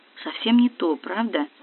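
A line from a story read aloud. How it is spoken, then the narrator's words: Quiet question. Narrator (Russian): тихо спросил Стас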